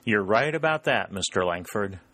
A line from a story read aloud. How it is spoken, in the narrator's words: said Sherburne, with a little laugh